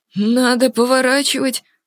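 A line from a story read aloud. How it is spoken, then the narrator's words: Trembling voice. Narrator (Russian): дрогнувшим голосом произнес Деджери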